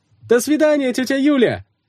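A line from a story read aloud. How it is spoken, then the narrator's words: Ringing shout. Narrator (Russian): звонко крикнули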